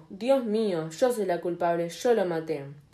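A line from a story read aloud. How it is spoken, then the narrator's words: Exclaiming. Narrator (Spanish): exclamó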